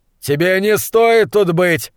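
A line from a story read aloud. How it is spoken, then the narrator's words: Yelling. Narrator (Russian): завопил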